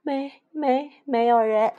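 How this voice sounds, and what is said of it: Timid, quiet stammering voice. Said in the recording (Chinese): “胆怯地小声回答”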